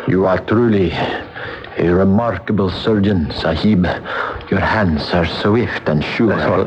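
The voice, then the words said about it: Speaks with a put-on foreign accent. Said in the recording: “you're talking like an Englishman now. What's happened to your accent?”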